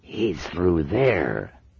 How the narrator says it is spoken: hissed another voice

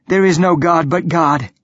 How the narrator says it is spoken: gasp

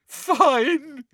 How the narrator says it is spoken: said Hermione, now sobbing into her hands again

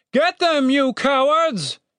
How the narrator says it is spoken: shouted Captain Righteous

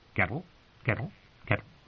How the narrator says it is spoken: When it got neither corn nor answer, it quirked and muttered

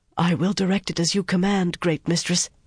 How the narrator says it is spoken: Alviarin breathed hoarsely

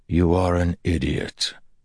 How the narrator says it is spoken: Perrin said softly

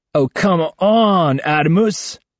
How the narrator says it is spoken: groans Ivan

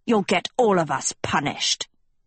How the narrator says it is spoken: Hester growled

